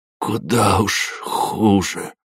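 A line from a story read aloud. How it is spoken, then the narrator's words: Hoarse wheeze. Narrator (Russian): прохрипел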